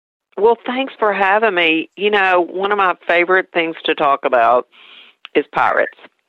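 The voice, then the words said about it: East Tennessee accent. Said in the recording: “my East Tennessee accent”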